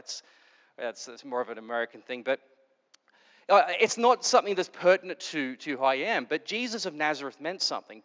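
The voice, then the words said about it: Australian accent. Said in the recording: “you can pick up my accent and go, where are you from? Austria? No, Australia.”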